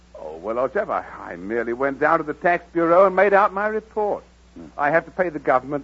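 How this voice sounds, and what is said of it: Exaggerated upper-class English accent. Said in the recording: “You're English ... this ridiculous accent”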